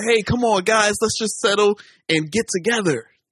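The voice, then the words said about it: Imitated American accent, another person's voice. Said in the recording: “my American accent impersonation”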